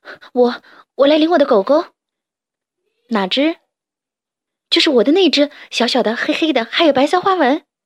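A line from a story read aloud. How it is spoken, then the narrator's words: Breathless, panting question. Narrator (Chinese): 辛迪一边喘气一边问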